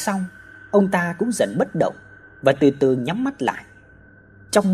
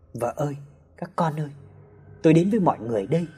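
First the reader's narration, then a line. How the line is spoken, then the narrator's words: Soft cry. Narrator (Vietnamese): ông chủ nhà khẽ kêu lên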